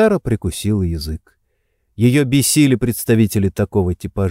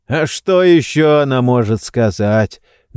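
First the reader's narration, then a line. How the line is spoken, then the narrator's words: Mocking. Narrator (Russian): насмешливо ответил мужчина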